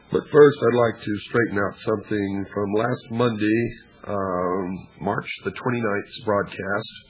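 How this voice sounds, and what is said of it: Strained, failing voice. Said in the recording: “my voice is failing me, and it's only getting worse”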